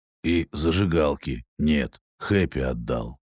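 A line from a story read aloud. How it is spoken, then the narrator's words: Calm. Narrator (Russian): спокойно прокомментировал Найт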